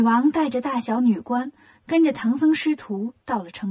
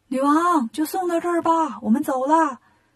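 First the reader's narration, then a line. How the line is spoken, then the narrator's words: Shouting together. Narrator (Chinese): 悟空、八戒、沙僧就一起喊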